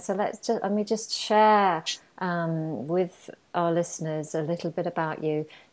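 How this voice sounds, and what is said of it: English accent. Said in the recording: “I pronounced it with a very English accent there, but that's good because we're English.”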